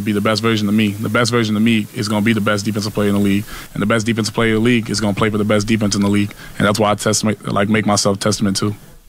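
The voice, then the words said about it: Ohio accent, noticeable R sounds. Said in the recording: “There was some accent. ... you hear, like, type of the R's. ... It's a Steubenville accent.”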